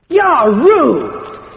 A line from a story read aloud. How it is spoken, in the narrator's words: roared the junior, as he sprawled on the floor over Harry's legs